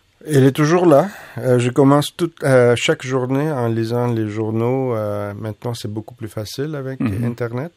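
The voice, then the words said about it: Foreign accent in French. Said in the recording (French): “tu as un accent. ... Maintenant, je parle toutes les langues avec un accent.”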